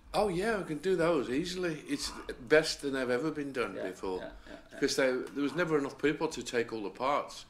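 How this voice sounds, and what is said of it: Man with a lovely accent. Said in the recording (Dutch): “Hoor je ook zijn heerlijke accent?”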